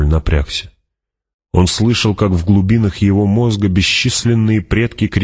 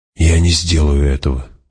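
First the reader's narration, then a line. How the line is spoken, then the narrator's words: Breathed out. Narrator (Russian): выдохнул он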